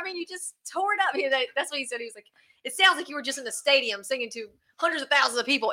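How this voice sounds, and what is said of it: Strong Southern American accent. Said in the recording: “I have such a bad Southern accent”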